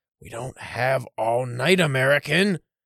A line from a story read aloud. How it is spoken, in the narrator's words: someone muttered